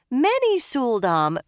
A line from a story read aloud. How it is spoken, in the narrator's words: Rena went on in that almost friendly tone